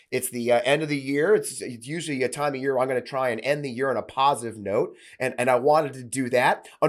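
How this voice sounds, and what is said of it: Voice a little off from illness. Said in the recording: “I also got sick. You may notice my voice is a little off”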